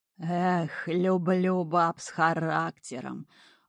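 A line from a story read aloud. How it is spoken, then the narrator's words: Affectionate drawl. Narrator (Russian): любовно протянул Водяной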